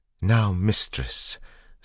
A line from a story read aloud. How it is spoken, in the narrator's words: Sazed said in a surprisingly lucid voice